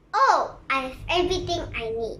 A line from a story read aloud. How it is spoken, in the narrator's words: he said